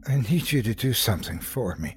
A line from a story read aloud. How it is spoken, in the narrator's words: I said in a weak voice